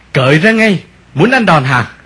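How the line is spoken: Threatening shout. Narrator (Vietnamese): Một thằng quát

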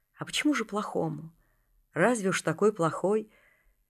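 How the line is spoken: Sad father. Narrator (Russian): Отец и говорит грустно так

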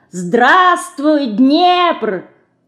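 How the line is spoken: Cheerful. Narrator (Russian): весело сказала она

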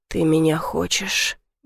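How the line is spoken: Muttered against lips. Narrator (Russian): Бормочу в губы младшего Мишки

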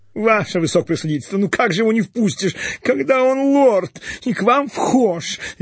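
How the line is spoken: Tearful squeak. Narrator (Russian): Видно, уже не первый раз плачущий пропищал очкастый

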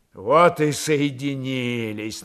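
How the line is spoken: Mocking. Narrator (Russian): насмешливо сказал он

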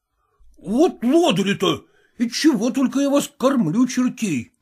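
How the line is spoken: Exclaiming. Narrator (Russian): воскликнул он

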